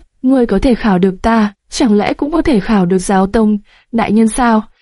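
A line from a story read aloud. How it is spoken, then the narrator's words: Sudden weak voice. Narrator (Vietnamese): Tô Mục đột nhiên mở miệng với giọng yếu ớt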